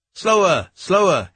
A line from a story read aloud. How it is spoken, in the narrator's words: he kept shouting